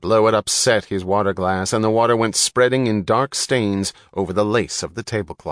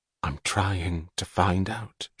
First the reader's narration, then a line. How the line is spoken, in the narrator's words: she whispered